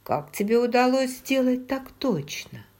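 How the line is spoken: Laughing. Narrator (Russian): Джейми рассмеялся

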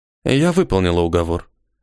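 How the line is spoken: Calm. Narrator (Russian): спокойно сказала она

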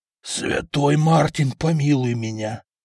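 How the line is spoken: Crushed, despairing voice. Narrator (Russian): убитым голосом сказал купец

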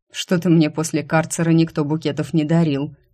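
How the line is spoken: Snorting. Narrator (Russian): фыркнул Светлый

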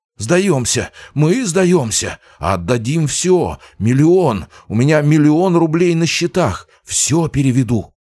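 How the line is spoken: Woman's terrified screaming. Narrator (Russian): Женщина-туманник испуганно вопила

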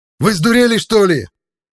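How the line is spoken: Yelling. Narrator (Russian): завопил Макс

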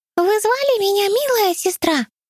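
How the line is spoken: Squeaky voice. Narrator (Russian): пропищала королева мышь

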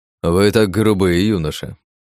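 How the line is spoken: Snorting. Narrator (Russian): фыркнул посол

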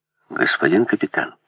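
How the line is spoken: Muttered. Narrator (Russian): пробормотал я

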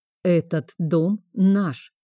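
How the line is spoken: Calm. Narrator (Russian): спокойно сказал Вейнард

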